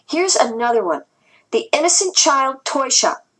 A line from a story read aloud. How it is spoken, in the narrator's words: Anyi exclaimed